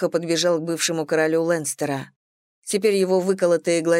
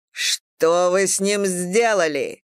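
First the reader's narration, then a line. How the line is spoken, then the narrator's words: King's bark. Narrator (Russian): рявкнул король Бриан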